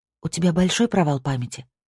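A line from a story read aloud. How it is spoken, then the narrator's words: Plain. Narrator (Russian): спросила Сабина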